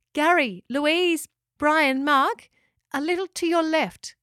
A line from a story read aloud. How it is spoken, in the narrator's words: called out Locker